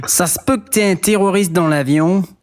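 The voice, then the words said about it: Weak put-on Québécois accent. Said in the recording (French): “On n'est pas hyper fort en accent québécois.”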